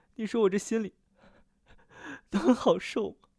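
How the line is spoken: Sobbing. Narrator (Chinese): 白玉楼忍不住抽泣

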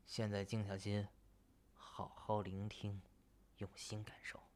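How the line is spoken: Low voice. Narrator (Chinese): 低声说道

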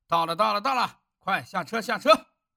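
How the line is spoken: Officers shouting. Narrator (Chinese): 陈营长和军官们大声地叫着

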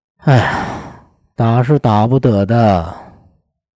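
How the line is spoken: Sighing. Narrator (Chinese): 叹了口气说道

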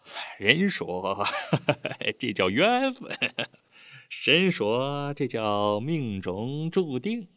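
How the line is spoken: Smiling. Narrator (Chinese): 潘金满笑了

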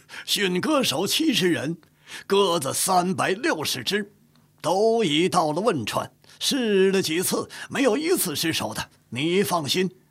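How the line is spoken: Booming, cheerful old man. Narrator (Chinese): 岳钟琪已是皓首似雪，仍是矍铄精神，声如洪钟，笑着答道

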